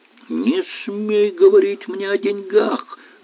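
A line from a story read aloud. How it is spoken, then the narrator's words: Shrieking. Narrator (Russian): завизжал Околович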